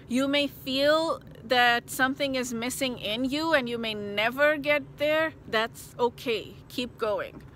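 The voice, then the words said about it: Emotional, choked-up voice. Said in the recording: “oh my God, I'm getting emotional again”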